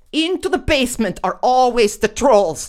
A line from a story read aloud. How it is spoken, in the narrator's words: shouted Bobby